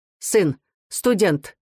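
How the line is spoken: Loud quick reply, old woman. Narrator (Russian): ответила старушка громко и быстро

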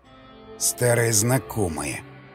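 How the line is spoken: Muttered through gritted teeth. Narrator (Russian): сквозь зубы бормочет ходок

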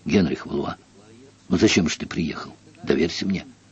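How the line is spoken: Urgent whisper. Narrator (Russian): настойчиво прошептал ему на ухо

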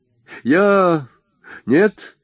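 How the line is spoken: Exclaiming. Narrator (Russian): воскликнул Джордж

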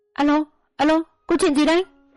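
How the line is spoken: Shouting. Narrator (Vietnamese): Vợ cùng hét lên

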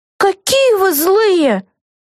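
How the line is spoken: Exclamation. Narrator (Russian): воскликнула Вега

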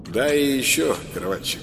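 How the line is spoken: Muffled, hollow. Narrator (Russian): произнес Дима глухо

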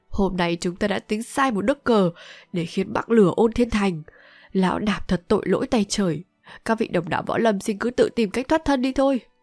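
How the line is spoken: Deeply grieving voice. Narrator (Vietnamese): với giọng vô vàn xót xa nói tiếp

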